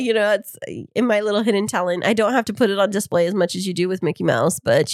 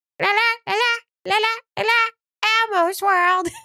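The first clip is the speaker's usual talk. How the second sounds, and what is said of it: Imitates Elmo's character voice. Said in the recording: “your Elmo impression”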